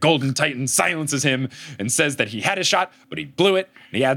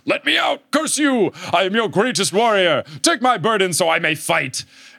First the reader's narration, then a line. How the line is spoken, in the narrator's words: he yells